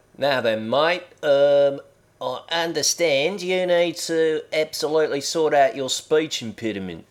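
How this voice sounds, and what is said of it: Put-on Australian accent. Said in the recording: “do it in an authentic Australian accent”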